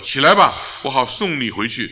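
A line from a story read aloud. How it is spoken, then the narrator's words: Calling out. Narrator (Chinese): 撒母耳呼叫他说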